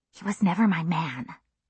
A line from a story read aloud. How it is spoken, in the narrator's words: I whispered